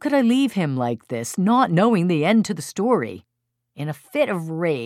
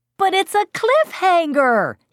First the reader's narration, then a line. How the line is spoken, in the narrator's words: he screamed